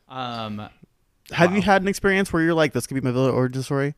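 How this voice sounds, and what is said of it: Very fast speech. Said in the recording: “I'm talking very fast”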